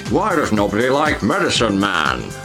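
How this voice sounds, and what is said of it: Imitates another person's voice, Scottish accent. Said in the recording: “using Sean Connery's wide range of accents ... And Scottish.”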